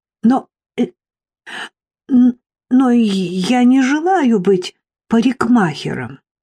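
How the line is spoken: Stammering girl. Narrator (Russian): Девочка, запинаясь, произнесла

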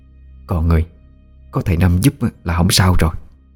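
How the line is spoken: Soft woman's voice. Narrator (Vietnamese): Bà cả nhỏ giọng nói

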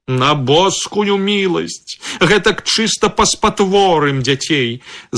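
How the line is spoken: Tearful shouting. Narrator (Belarusian): з блізкімі слязьмі крычыць нявестка

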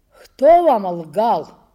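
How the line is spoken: Old but strong voice. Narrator (Russian): Стариковским, но сильным голосом заговорил Матвеев

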